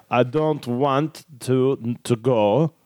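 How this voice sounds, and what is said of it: Fake European accent, Count-like voice. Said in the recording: “I like to do a fake European accent ... You sound like the Muppet ... You sound like the Count from the Muppets having a stroke.”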